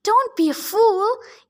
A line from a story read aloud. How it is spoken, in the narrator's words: Ethan groaned